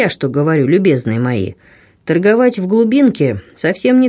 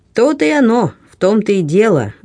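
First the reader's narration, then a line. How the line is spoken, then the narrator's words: Laughing villager. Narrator (Russian): рассмеялся селянин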